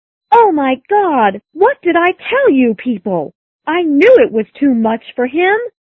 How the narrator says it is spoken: shouted the little girl

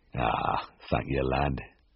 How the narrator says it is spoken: the farmer said

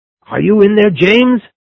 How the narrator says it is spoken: But the squire's shouts were not loud enough to be heard over the sound of falling metal and wood inside the stable

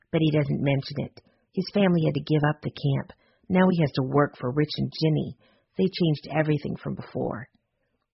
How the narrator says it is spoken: Kim whispered back

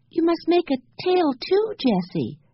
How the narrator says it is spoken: begged Benny

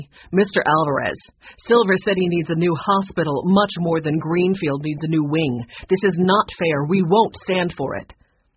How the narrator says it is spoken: the red-haired woman said firmly

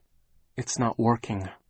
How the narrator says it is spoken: Violet said miserably, and felt tears fall down her cheeks

